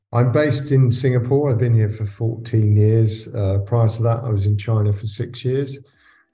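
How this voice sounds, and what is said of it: British accent. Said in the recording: “before that in the UK, I imagine, from the accent”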